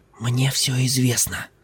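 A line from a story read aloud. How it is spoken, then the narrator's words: Whispered. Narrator (Russian): зашептал Ким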